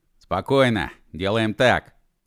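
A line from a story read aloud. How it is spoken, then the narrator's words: Barked in commanding voice. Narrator (Russian): командирским голосом рявкнул Машков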